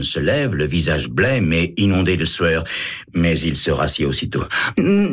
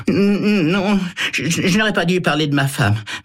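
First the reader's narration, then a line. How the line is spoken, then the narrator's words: Apologetic stammer. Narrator (French): bredouille-t-il pour s'excuser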